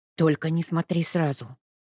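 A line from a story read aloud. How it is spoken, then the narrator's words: Hissing. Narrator (Russian): прошипела она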